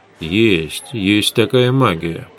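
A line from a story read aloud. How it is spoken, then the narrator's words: Muttering. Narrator (Russian): пробормотал Гессер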